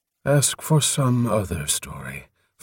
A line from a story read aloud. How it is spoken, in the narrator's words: Foam Follower sighed wearily